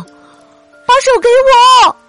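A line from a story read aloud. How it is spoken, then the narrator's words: Loud shout. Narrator (Chinese): 小刺猬大声喊道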